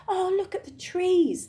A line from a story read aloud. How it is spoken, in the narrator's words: they cried